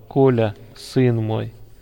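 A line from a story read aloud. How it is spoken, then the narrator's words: Affectionate. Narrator (Russian): ласково называл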